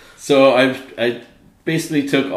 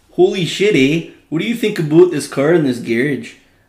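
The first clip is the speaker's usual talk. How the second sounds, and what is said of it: Exaggerated Canadian accent impression. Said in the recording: “all the best Canadian lingo ... my Canadian impression.”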